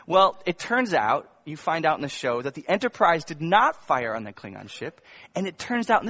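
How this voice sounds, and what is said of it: Usual voice. Nothing is said of it.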